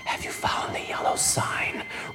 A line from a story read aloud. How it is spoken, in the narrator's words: All the goons simultaneously whisper